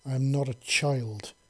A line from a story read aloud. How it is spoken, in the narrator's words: snapped, a bit harsher than he intended